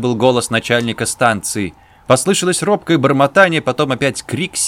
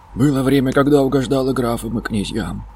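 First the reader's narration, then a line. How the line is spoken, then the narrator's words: Quiet speech. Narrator (Russian): проговорил тихо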